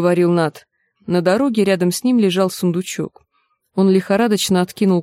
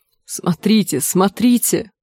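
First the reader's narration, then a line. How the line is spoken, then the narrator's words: Exclaimed. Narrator (Russian): воскликнул Нат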